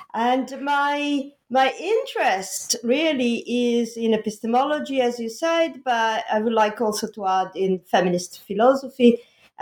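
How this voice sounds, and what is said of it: Italian accent. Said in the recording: “I'm Italian, and the Italian accent”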